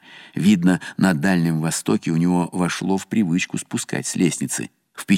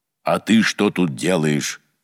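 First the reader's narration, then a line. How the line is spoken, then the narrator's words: Menacing question. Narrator (Russian): грозно спросил владыка Гавриил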